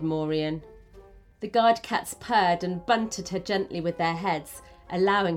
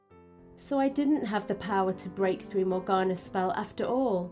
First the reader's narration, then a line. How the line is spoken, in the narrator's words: she said quietly, shivering at the realisation of the risk she had just taken